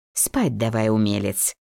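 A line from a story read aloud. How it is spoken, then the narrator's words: Good-natured grumble. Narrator (Russian): Беззлобно проворчала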